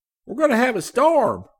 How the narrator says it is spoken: cried Daggett

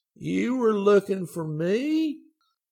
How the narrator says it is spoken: he exclaimed

